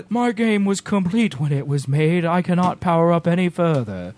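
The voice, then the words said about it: Voldemort character voice impression. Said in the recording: “That was my Voldemort impression.”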